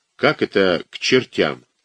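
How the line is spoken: Unsure questioning voice. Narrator (Russian): тоже не совсем своим уверенным голосом переспросил Ирастыч

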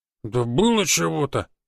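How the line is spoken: Offended drawl. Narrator (Russian): обиженно протянул Петрович

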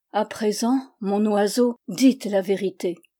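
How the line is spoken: Grave tone. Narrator (French): reprit d'un ton grave

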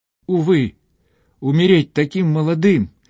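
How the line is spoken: Unhappy exclamation. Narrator (Russian): воскликнул несчастный Бевиль

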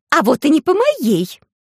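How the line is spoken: Hysterical shriek. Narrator (Russian): истерично взвизгнула госпожа Свон

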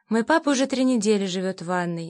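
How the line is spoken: Hesitant voice. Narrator (Russian): неуверенно начала я

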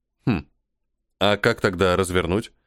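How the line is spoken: Puzzled snort. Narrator (Russian): недоуменно хмыкнул я

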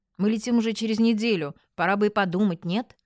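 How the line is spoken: Grumbling. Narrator (Russian): проворчала

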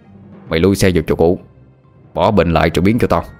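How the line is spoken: Harsh commanding voice. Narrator (Vietnamese): thằng kia gằn giọng nói như ra lệnh

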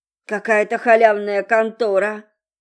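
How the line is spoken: Grumbling mutter. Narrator (Russian): пробурчал Володька

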